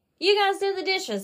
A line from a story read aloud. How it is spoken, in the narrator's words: I hollered to Mother and Daddy